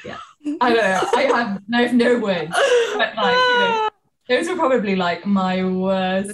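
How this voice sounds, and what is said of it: British accent. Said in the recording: “People aren't used to the British accent, obviously.”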